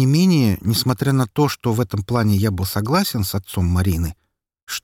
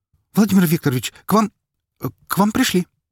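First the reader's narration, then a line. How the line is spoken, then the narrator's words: Slightly stammering. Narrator (Russian): Чуть запинаясь, сообщила она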